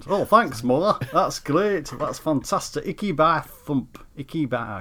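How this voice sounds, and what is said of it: Attempted Lancashire accent. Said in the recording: “a Lancashire accent ... I can't do Lancashire, can I?”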